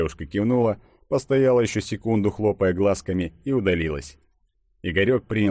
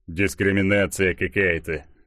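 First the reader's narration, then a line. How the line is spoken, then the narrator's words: Grumbling. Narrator (Russian): ворчал богатырь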